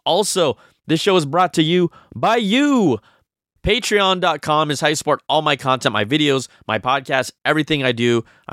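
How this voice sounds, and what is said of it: Strained, hoarse voice that is going. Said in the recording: “as I lose my voice”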